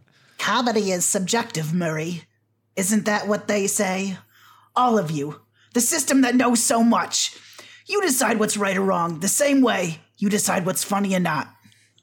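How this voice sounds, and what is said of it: Joker impression. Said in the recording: “That's Joker. Like the second best Joker impression I've heard.”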